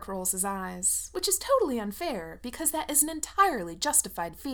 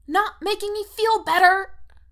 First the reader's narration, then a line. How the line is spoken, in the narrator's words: Erica squeaks